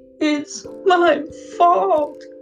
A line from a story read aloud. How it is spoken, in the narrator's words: she sobbed